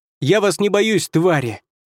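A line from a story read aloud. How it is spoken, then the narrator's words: Shout. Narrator (Russian): крикнул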